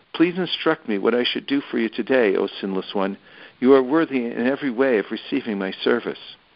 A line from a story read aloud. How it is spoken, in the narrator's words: asking in a pleasing voice